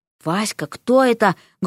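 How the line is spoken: Loud whisper, mother. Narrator (Russian): громким шепотом поинтересовалась у нее мать

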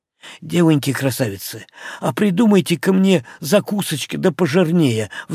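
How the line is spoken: Pleading. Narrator (Russian): взмолился он

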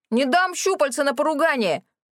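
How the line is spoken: Sudden shout from above. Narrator (Russian): вдруг заорал сверху Рэнди

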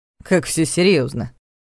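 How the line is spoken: Snorting. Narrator (Russian): хмыкнул Ваня

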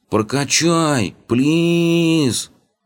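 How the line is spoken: Drawled. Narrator (Russian): протянул неугомонный ноб

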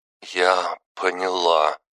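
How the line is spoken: Girl breathing out. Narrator (Russian): выдохнула девушка

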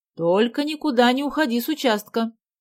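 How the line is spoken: Shouted. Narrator (Russian): крикнула она Гале

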